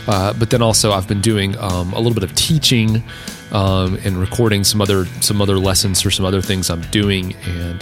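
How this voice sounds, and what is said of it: Deeper, worn-out voice. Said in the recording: “it seems like my voice is a little bit deeper ... allergy season ... I think my voice is a little bit worn out”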